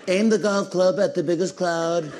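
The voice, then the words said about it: Bad Donald Trump impression. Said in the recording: “That is probably the worst Trump impression. That one is bad.”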